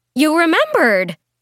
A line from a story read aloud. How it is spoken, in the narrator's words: she exclaimed, maybe a little too loudly